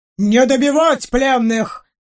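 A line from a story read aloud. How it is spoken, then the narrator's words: Barked. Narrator (Russian): рявкнул мастер-генерал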